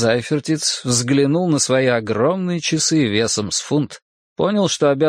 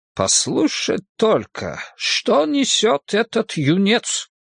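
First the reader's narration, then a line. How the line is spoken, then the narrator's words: Through gritted teeth. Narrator (Russian): процедил фон Зайфертиц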